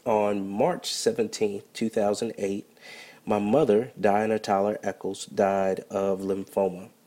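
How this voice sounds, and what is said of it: Voice sounds affected by a cold. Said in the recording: “pardon my voice ... I'm a little under the weather, recovering from a cold”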